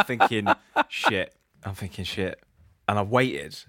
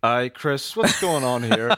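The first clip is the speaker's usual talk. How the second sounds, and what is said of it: Imitated Northern Irish accent. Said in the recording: “Is that the one accent you do for all people from Northern Ireland? ... Stevie's a bit lower”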